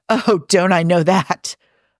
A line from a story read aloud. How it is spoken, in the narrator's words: Hob snorts before he can stop himself, then hurries to clarify